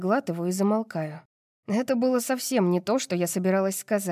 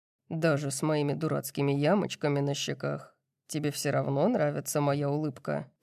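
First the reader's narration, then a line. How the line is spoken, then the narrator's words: Soft breathy voice. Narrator (Russian): Кай говорит мягко, с легким придыханием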